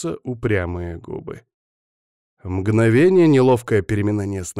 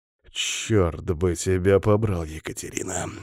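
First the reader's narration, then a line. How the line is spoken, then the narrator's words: Hissed through teeth. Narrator (Russian): Шиплю сквозь зубы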